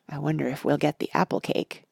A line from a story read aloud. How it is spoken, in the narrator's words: asked Freddy in a whisper